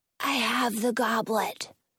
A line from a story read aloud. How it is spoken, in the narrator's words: he whispers to me